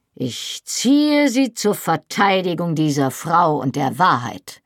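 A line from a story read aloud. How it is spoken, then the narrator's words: Iron-hard voice. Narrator (German): antwortete er mit eiserner Stimme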